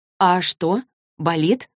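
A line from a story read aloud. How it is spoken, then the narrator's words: Plain. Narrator (Russian): спросила Клэри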